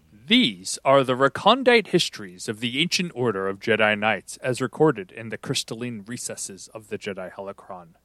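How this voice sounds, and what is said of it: Dramatic narrator voice. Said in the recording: “Getting my my narrator voice going.”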